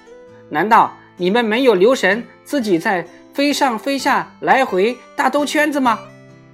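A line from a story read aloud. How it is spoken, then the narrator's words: Loud shout. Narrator (Chinese): 一只野鸭 对大雁们高声叫喊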